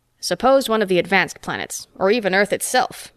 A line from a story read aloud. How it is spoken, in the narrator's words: Metaxa growled